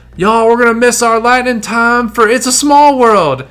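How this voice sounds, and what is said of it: Put-on deeper Southern accent. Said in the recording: “a slightly deeper southern accent”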